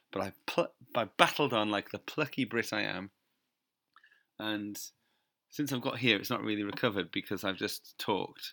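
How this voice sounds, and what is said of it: Hoarse, rough voice from laryngitis. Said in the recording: “As you can probably tell, my voice is a bit rubbish... my voice just went, proper laryngitis”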